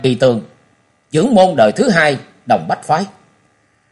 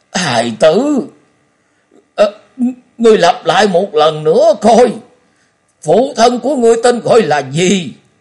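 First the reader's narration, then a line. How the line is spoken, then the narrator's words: Trembling voice. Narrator (Vietnamese): Ông ta giọng run run nói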